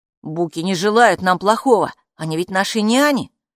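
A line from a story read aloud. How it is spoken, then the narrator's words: Calm, hiding anxiety. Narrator (Russian): спокойно сказал Каппо, хотя у самого отчаянно и беспокойно забилось сердце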